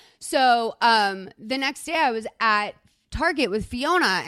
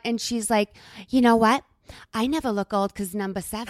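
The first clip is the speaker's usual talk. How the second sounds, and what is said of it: Put-on accent imitating a relative. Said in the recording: “I love your accent.”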